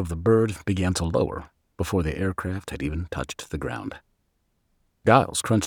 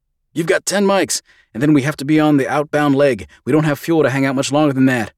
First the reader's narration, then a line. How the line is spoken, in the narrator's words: the chief yelled over the turbines